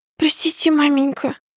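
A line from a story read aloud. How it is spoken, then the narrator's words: Crying boy's babble. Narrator (Russian): лепетал плачущий мальчик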